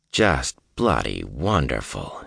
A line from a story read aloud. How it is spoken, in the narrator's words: he muttered